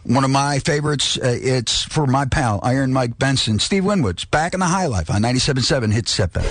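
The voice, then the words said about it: Announcer-style radio voice. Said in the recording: “your best radio voice”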